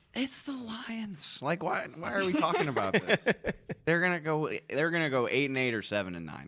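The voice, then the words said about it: Imitates another person's voice. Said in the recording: “my best Eatman impression”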